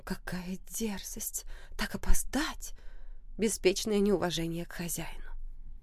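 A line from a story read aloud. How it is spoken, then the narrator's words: Pointedly audible whispering. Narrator (Russian): Леди, сидящие напротив Оливии, перешептывались, но намеренно хотели донести сказанное до ее ушей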